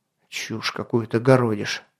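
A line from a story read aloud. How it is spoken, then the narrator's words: Muttered. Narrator (Russian): пробормотал Атар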